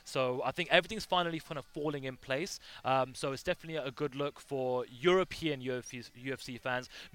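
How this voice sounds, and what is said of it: English accent. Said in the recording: “your English accent really classes the place up a little bit”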